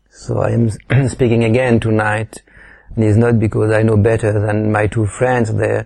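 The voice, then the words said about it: French accent. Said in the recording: “they love my French accent”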